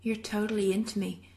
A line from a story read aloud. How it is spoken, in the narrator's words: Jensen says softly